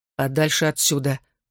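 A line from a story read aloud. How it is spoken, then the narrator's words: Through clenched teeth. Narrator (Russian): сквозь зубы ответил он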